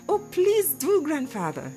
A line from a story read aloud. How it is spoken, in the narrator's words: she cried